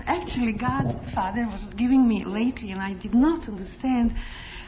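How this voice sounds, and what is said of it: Strong foreign accent. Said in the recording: “When I get excited, my accent gets so strong. But then people say it's charming”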